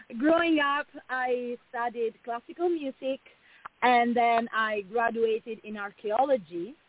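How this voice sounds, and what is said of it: Italian accent. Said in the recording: “you might hear it from my accent. I'm originally from Italy.”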